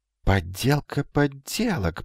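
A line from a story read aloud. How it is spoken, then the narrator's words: Muttering. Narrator (Russian): пробормотал Магнан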